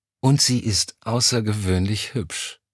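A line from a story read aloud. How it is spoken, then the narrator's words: Sighing. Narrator (German): Elm seufzte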